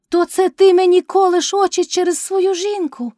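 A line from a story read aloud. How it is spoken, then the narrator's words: Shout. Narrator (Ukrainian): крикнула Кайдашиха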